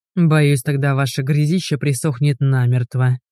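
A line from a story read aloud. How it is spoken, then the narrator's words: Grumbled. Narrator (Russian): пробурчал Игорь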